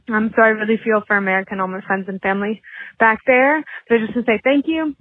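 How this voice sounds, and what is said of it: Slight Australian accent. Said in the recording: “you have a good Australian little bit of accent for Ohio girl”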